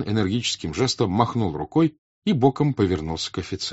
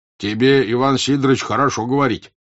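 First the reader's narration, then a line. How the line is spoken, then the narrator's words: Angry merchant. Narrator (Russian): сердито заговорил 1-й купец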